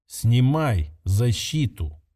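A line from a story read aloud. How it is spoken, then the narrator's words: Calm repetition. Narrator (Russian): спокойно повторил Кирилл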